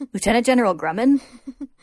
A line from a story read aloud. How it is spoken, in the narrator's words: Grumman laughs